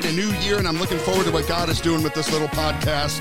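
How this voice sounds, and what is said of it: Rough, early-morning voice. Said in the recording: “excuse my voice... let me clear my throat... a little rough for me this morning”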